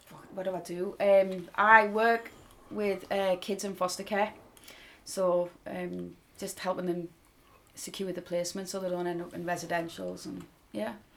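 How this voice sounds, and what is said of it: Strong North East English accent. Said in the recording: “as you can tell by my accent, I sound really, really Australian... with that no, big accent. I would never have guessed you were actually originally from Peterlee”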